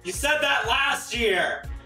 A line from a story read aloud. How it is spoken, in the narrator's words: the audience started to yell back